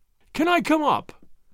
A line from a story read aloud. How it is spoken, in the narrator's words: he cried